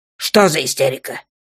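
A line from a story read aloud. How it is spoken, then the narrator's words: Growled. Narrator (Russian): прорычал он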